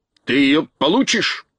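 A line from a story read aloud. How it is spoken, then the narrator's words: Harsh bark. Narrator (Russian): рявкнул Кабр Гвин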